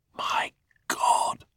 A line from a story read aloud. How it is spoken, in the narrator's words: whispered Hans